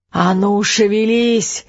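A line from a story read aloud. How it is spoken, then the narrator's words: Hoarse old man's terrifying yell. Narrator (Russian): еще громче возопил Эд хриплым старческим голосом, отчего его вопли стали звучать ужасающе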